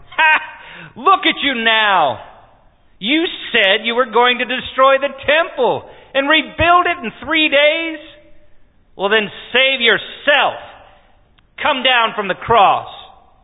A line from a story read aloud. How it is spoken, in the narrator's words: The leading priest, the teachers of religious law, they also mocked Jesus